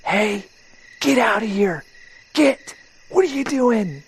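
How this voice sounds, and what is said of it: Loud whisper, hushed yelling. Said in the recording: “whisper yell ... I'm trying to be quiet”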